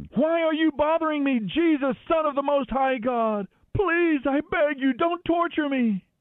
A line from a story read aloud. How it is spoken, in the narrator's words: he shrieked ... screaming